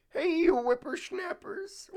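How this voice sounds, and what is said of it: Old man character voice. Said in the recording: “do an old man voice ... my like Timmy the Turtle voice ... He's ancient. He's an ancient turtle.”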